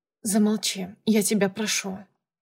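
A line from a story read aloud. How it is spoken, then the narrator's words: Quiet, colorless voice. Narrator (Russian): сказала я тихо и как-то бесцветно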